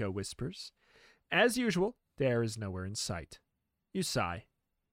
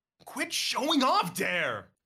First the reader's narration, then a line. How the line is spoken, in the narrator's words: You yell